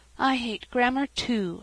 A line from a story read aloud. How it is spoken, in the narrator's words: sighed Sarah Ray